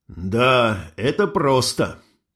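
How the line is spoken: Strained, forced words. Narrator (Russian): выдавил я

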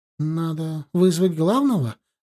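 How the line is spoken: Uncertain. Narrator (Russian): неуверенно сказала Инга

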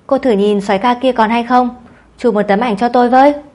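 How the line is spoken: Loud call from inside. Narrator (Vietnamese): Trong phòng, Tang Phi Yến lớn tiếng dặn

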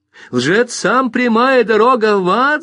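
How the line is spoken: Shouted. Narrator (Russian): закричала Мэри Дулин

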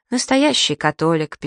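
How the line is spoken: Sad. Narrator (Russian): печально качает головой Тревор

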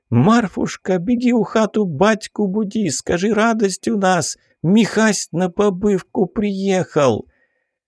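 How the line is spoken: Tearful joyful voice. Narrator (Russian): Наталья Акинфеевна сквозь слезы радости произнесла

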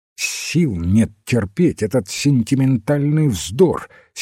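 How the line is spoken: Angry interruption. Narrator (Russian): сердито оборвал его Уэйн

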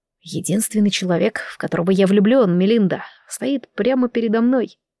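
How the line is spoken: Near-whisper, restrained displeasure. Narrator (Russian): Пытаясь сдержать недовольство, парень почти шепотом произнес

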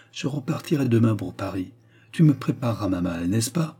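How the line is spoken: Calm. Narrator (French): reprit-il d'une voix calme

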